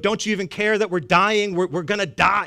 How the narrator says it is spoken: they're screaming, they're yelling

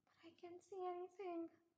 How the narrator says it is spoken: I said in a breathless voice

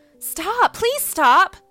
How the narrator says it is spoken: I cried

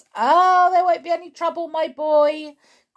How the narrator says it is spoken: cried Mr

